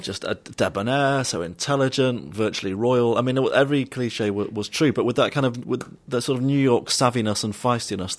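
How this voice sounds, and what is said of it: British accent. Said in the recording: “a single Jewish fella with a British accent”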